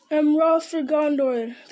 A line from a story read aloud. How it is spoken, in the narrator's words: they cried